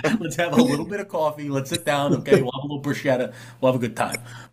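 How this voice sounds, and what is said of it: Exaggerated New Jersey accent. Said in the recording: “You could hear the Jersey ... And then I get my Jersey comes out. If someone brings up coffee or pizza”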